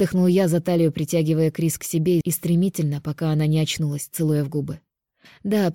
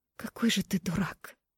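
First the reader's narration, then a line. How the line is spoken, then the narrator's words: Tender sob. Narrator (Russian): Нежно всхлипнула Крис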